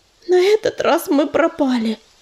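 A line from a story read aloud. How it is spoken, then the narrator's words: Thin squeak inside head. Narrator (Russian): тоненько пискнула у нее в голове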